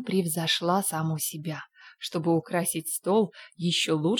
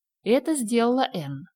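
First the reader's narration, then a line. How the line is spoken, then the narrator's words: Dry. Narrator (Russian): сухо сказала Марилла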